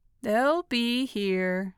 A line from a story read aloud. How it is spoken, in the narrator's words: said blandly